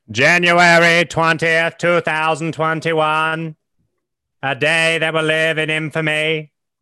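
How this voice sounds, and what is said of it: Old-timey 1930s radio announcer voice. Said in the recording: “do you sound like an old-timey, like, ... 1930s, like, War of the Worlds.”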